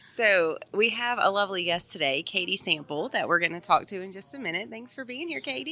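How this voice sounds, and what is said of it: Raspy, hoarse voice. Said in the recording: “my voice is very raspy”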